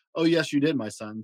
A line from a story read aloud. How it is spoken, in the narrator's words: said the king